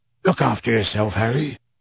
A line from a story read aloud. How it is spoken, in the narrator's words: He said gruffly